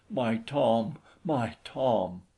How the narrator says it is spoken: With a little sob gasping

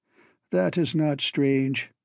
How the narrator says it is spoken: he said wearily

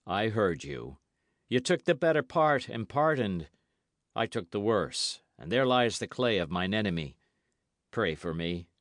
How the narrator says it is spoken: he said, very gravely

